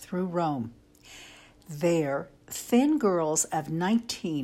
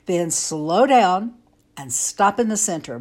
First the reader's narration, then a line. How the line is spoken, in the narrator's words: Brian barked